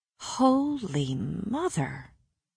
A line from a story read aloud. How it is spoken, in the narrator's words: breathed